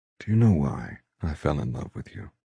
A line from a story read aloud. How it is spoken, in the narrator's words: He asks softly in my hair